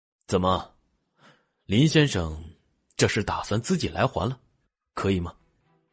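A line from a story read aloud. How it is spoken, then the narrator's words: Calm, detached question. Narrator (Chinese): 荣寒生淡淡询问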